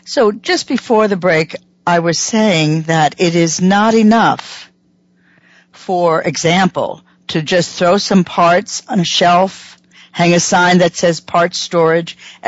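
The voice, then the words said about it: Voice with a slight catch. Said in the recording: “apologize for my voice. I continue to have a little catch in it. I can hear it, and I'm sure you can too.”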